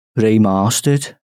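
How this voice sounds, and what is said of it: Put-on Brummie accent. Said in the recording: “That was a Brummie accent. ... That was kind of Scouse.”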